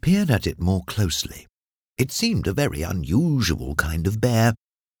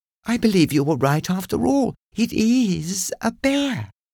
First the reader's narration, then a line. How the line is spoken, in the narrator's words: exclaimed